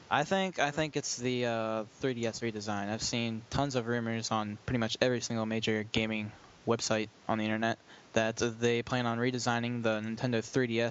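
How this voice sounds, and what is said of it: British accent. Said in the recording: “You have a British accent there”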